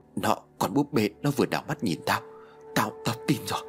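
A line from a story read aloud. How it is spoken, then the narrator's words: Trembling, terrified. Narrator (Vietnamese): Tùng run rẩy, tái mét nói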